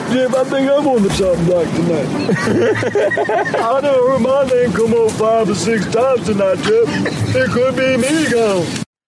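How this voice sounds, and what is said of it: Impression of Mike Holloway. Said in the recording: “doing an impression of Mike Holloway”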